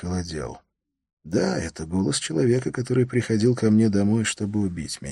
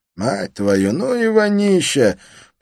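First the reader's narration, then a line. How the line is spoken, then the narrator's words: Groaning. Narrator (Russian): простонал третий голос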